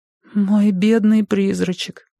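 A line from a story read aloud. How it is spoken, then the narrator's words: Sighing. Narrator (Russian): вздохнула Юка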